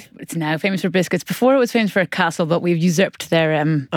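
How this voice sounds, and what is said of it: Irish accent. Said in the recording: “Lovely Irish accent there.”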